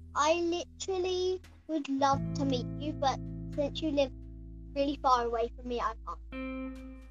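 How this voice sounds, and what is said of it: Noticeable accent, possibly British. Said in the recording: “You live in, like, London or something, right? I'm judging by your accent ... Because, like, you have an accent?”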